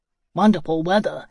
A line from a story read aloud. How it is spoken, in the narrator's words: said